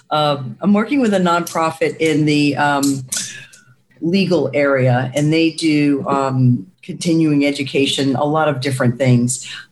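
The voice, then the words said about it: Voice with a cold. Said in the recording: “I have a bit of a cold”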